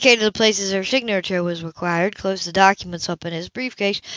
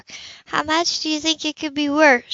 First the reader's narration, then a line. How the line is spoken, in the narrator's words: she asked hesitantly